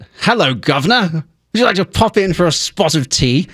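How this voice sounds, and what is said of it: Exaggerated proper English accent. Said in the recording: “I have to do an impression of myself doing an impression ... he's trying to look for a received pronunciation, which I do not have ... an impression of somebody being very, very proper in English.”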